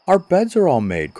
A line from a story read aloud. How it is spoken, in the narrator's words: cried another